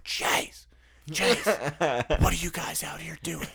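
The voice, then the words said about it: Loud whisper, whisper-yell. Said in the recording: “that whisper yell that like when you can't wake up the rest of the neighbors”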